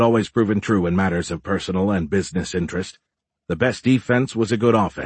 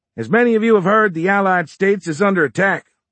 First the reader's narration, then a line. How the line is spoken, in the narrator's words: Fisher bellowed